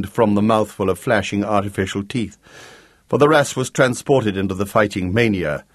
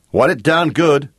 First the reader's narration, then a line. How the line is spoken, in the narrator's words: shouted Jake